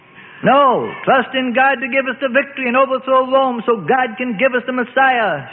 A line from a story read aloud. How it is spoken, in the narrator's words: shouted the zealots